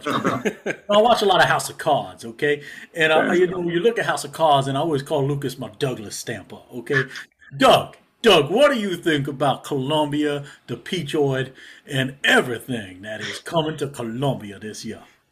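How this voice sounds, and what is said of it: Put-on slow South Carolina drawl. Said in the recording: “school South Carolina feel. Kind of talk a little bit like this, a little bit like molasses under the tongue ... done enough of an accent for, I think, maybe everyone in both Carolinas”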